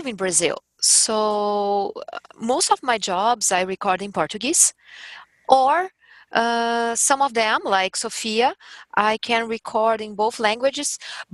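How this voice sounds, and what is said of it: Strong Brazilian accent in English. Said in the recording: “a strong and Brazilian accent ... I have strong accent ... with a lot of accent, with my accent”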